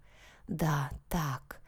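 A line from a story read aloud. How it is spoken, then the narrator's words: Hoarse man's wheeze. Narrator (Russian): хрипел мужчина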